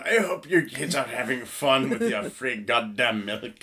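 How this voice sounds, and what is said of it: Unclear put-on accent. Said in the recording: “I'm not sure what that accent was supposed to be”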